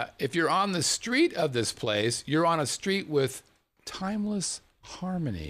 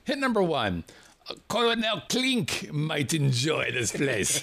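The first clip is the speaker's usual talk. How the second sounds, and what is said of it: Put-on accent. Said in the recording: “That was my best accent.”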